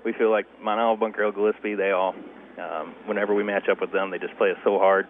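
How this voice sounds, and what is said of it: Congested, breathy, hoarse voice. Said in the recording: “I'm kind of stuffed up here, so I'm breathing hard and lost my voice.”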